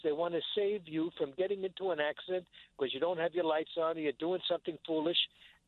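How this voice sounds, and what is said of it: New York accent. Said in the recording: “You're a New Yorker. I could hear it in your accent.”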